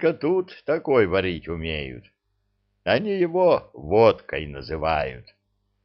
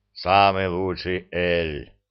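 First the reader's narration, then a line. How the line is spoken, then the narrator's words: Booming. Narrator (Russian): прогудел Зырк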